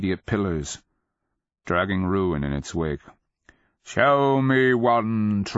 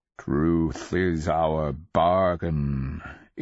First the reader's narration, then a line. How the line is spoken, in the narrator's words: it rumbled, croaking out of the blackness